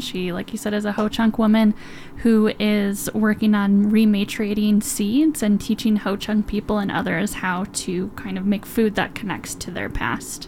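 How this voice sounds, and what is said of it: Wisconsin accent. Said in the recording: “Coincidentally, where I'm from, if you can't recognize my accent ... Wisconsin”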